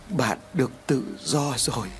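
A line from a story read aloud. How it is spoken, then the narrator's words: Soft. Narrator (Vietnamese): Lý khẽ nói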